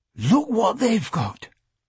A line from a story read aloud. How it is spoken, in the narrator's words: Michael exclaimed